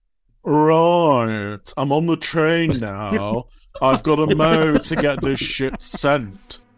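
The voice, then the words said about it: Imitates another person's voice. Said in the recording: “I have refined my impression”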